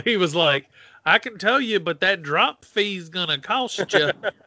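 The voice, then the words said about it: Bad impression of a friend's dad. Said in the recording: “That's like the worst impression I could do of your dad, but it sounds exactly like him in my head.”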